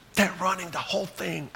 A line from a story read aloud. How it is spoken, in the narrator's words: Alice whispered